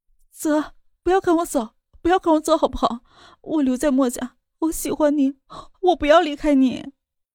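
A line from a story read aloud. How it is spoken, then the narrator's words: Crying, pleading. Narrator (Chinese): 莫雨涵哭着道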